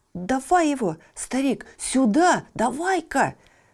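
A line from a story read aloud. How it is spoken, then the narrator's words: Greedy exclamation. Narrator (Russian): С жадностью воскликнул богатый мужик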